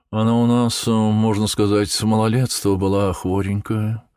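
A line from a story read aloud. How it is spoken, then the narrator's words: Woman, sing-song voice. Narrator (Russian): рассказывала Христина Дмитриевна певучим голосом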